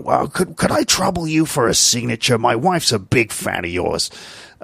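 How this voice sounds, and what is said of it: Impression of a TV detective. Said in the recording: “I don't know if that's a good Columbo impression”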